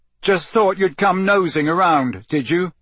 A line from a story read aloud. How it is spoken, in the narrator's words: Harry shouted